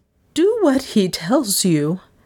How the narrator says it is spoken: Miss Cornelia insisted, her voice shaking

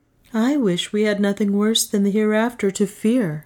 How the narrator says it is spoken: said Francisco with a sigh

